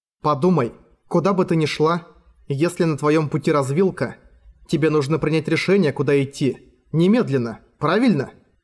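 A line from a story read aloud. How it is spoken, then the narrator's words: Plain. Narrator (Russian): сказала Иима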